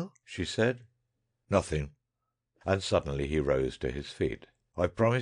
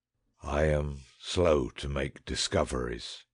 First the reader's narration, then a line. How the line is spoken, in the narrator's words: said Horrocks grimly